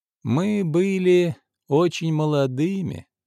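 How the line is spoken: Sighing. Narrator (Russian): вздохнула Арина Петровна

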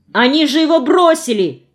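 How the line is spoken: Shout. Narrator (Russian): крикнул Алеша

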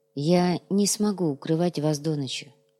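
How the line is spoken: Quiet. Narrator (Russian): тихо произнес отец Алексей

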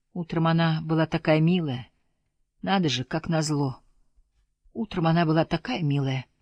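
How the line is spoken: Quiet moaning mutter. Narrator (Russian): Фрэнк либо молчал, либо тихонько стонал и бормотал одно и то же

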